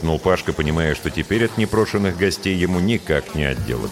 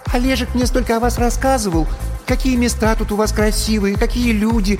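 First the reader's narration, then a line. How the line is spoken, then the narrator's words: High shrill birdlike voice. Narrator (Russian): начала черненькая Яна высоким и резким, каким-то птичьим голосом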